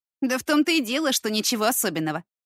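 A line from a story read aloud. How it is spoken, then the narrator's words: Dismissive snort. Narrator (Russian): Дашка, фыркнув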